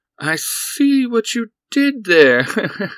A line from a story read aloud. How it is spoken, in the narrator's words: Buzzsaw chuckled